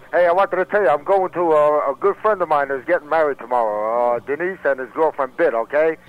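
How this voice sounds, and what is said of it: Jersey City accent. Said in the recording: “that's my Jersey City accent”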